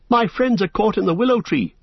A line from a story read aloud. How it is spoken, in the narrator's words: cried Frodo, breathless